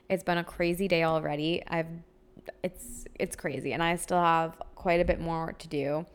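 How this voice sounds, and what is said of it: Raspy, worn-out voice. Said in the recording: “my voice is shot ... this raspy in my voice ... such a raspy voice ... I have not stopped talking for like a week straight”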